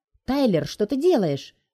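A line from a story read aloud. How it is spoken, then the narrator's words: Indignant shout. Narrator (Russian): возмущенно кричит Джел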